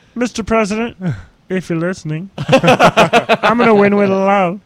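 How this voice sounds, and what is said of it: Impression of Marianne Williamson. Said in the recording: “What a voice. Talk about any woman who can do that impression. That debate, we played it a couple weeks ago. She's like,”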